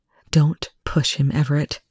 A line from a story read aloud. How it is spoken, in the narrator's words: she said quietly